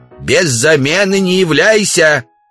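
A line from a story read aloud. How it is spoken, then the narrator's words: Shout from a distance. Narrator (Russian): Жена Удалова, Ксения, крикнула им вслед со двора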